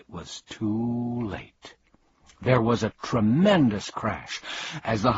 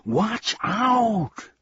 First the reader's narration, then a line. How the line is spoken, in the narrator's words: began Milo, and then he yelled